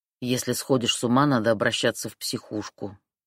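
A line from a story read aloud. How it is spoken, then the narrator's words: Grumbled. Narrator (Russian): проворчал Мишка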